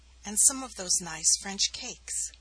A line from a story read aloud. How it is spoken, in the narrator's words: Glamorys remarked gently